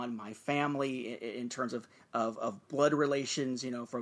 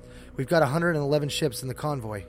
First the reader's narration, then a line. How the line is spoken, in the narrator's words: Anakin said, coming up behind his father nervously, not really knowing what to do, what to say